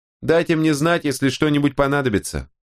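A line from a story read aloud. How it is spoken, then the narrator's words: Woman's shout after someone. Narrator (Russian): крикнула ему вслед женщина в набедренной повязке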